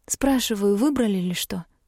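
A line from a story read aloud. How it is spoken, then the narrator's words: Barely audible. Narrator (Russian): произнесла едва слышно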